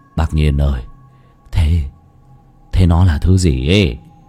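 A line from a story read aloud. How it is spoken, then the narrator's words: Trembling question. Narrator (Vietnamese): run rẩy hỏi Lão Nhiên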